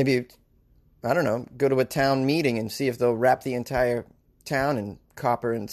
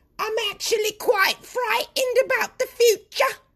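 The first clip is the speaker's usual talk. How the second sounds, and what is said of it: Put-on old British woman accent. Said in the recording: “I gotta do a, UK, old female UK accent.”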